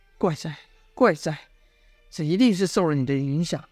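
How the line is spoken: Muttering. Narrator (Chinese): 公孙仇喃喃道

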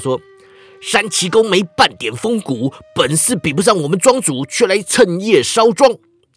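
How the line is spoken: Shouting. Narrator (Chinese): 灰衣人叫道

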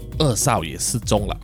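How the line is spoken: Sighing, low voice. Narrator (Chinese): 查理叔叔叹了一口气，低声说

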